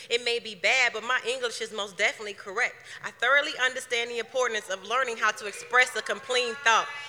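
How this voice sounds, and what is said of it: Southern US accent. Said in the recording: “my southern accent at times leaves my syllables lacking”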